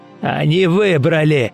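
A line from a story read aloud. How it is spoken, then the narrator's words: Barked. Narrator (Russian): рявкнул лесник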